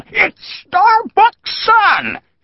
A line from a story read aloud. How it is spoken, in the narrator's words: screamed his victory